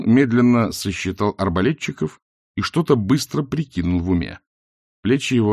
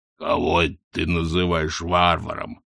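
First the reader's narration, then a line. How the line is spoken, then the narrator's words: Growled. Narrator (Russian): прорычал Хрун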